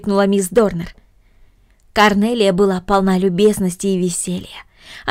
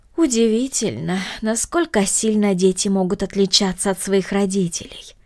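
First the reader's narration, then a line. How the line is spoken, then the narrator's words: Regretful sigh. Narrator (Russian): вздохнула мисс Гридолин с сожалением в голосе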